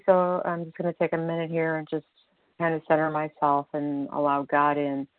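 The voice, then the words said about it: Slightly hoarse, froggy voice. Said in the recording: “Pardon my voice this morning. It's a little froggy”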